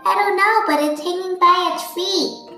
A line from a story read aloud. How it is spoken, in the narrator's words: chirped Flitter